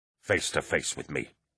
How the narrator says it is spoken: Eidolon growled

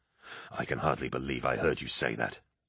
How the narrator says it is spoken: he snarled

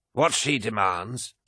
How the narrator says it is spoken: spat Mallinghurst

